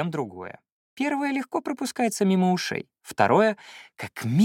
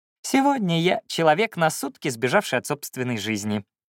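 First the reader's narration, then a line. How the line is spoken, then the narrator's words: Serene laughing. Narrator (Russian): безмятежно рассмеялась Лина в ответ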